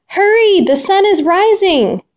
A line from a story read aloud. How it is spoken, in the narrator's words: the eagle cried